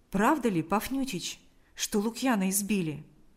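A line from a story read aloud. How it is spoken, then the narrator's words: Plain. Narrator (Russian): спросил он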